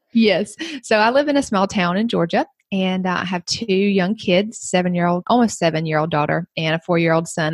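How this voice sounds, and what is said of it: Southern US accent. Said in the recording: “I'm from the South. You might can tell that from my accent.”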